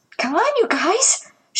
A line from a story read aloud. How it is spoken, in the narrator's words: wheezed